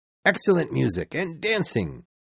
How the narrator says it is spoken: he cried

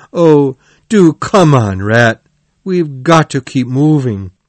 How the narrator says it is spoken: the mole, who was very cold and in pain, cried

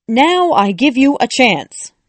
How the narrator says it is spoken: shouted the Queen

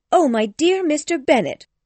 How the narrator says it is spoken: cried his wife

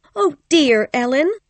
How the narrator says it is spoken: cried Kathy

